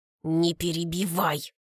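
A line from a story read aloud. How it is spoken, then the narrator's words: Through clenched teeth. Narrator (Russian): Цедит Колька сквозь зубы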